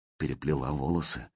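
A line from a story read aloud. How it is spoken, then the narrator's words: Tender question. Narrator (Russian): спросил ласково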